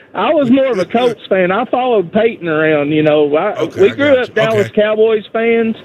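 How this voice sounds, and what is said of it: Strong noticeable regional accent. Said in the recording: “I love your accent ... what an accent that guy's got”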